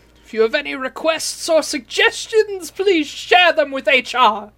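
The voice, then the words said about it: Put-on German-French accent. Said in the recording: “your accent stays pretty German, but then once in a while you become Lumiere ... I totter between French and German.”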